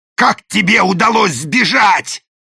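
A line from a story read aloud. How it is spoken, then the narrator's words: Growling. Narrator (Russian): зарычал даймё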